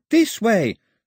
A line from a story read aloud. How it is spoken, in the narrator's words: screamed Daphne, right in his ear